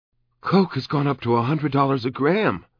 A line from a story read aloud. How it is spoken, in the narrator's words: exclaiming